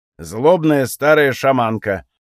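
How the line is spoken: Grumbling. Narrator (Russian): проворчал Гряк

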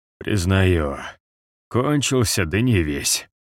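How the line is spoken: Hoarse wheeze. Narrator (Russian): прохрипел Барвенталь

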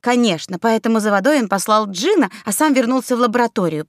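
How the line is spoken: Through gritted teeth. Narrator (Russian): процедила Светка

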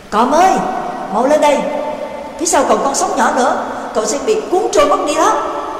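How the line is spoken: Calling out. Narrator (Vietnamese): Dương ở đuôi thuyền kêu lên

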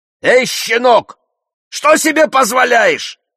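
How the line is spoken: Shout. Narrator (Russian): крикнул я

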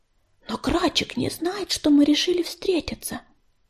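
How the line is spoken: Whispered. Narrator (Russian): прошептала Ласточка

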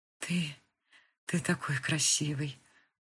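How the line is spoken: Whispered. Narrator (Russian): прошептала Кристина

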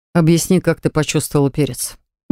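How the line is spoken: Calm relaxed male question. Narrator (Russian): Неожиданно спокойно спросил он, расслабленно откидываясь на спинку кресла

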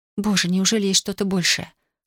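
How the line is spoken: Breathless whisper. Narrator (Russian): шептала она, задыхаясь

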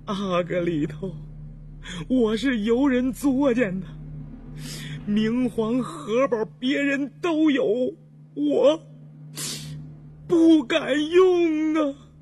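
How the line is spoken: Tearful. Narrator (Chinese): 印祥说完就哭了，开泪说

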